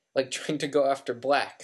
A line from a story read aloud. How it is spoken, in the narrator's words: said Ron sharply